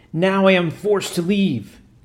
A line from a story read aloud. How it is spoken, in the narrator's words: With a terrible yell